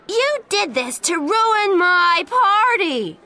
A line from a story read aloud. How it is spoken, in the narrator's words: She shouted at Jen